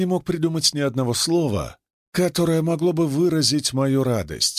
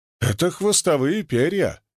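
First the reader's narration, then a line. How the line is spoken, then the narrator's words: Angry snort. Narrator (Russian): сердито фыркнула моя подруга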